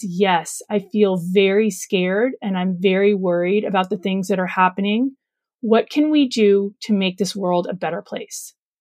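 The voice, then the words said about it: Emotional, shaky speaking voice. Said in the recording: “getting emotional”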